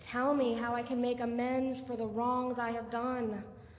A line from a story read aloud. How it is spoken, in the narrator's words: he pleaded